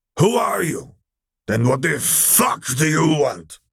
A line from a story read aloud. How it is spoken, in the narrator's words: he barked out